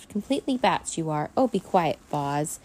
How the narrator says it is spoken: Minxie snapped

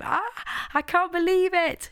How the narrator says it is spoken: she shouted

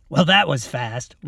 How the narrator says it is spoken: Robin laughed

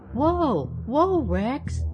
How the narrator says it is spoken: cried Mabel

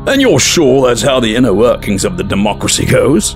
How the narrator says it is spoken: Andros said with a snort

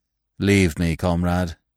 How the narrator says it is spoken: he murmured

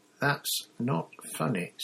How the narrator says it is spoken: said Hermione quietly

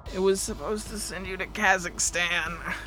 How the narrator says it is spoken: groaned

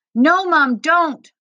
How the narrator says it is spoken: Mahmoud cried

